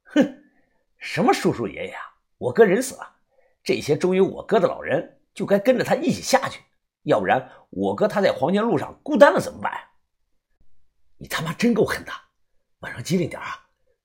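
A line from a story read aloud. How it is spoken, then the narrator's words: Sneering. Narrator (Chinese): 李康阳冷笑着说道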